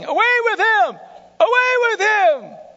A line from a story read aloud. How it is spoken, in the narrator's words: The crowd kept shouting